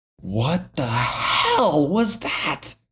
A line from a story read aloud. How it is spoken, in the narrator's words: Barker exclaims